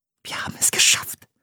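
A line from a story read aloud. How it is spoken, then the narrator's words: Whispered. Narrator (German): flüsterte sie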